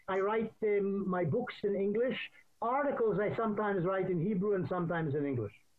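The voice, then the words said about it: British-sounding accent, slight Israeli tinge. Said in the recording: “his accent, which is actually sort of British, maybe with a little Israel thrown in. ... It's a mid-Atlantic accent.”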